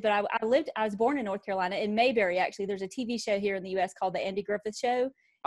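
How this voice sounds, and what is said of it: Strong North Carolina accent. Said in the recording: “it is quite a strong accent you've got there ... So it's really strong today”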